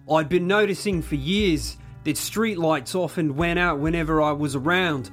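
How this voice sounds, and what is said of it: Put-on Australian accent. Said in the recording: “do you want to do your best Australian accent? ... my award-winning Australian accent”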